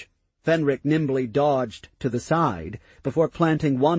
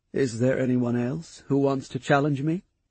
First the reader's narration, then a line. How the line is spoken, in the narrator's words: he asked in a calm tone